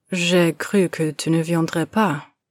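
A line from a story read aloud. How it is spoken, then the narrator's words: Plain. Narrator (French): te dit-il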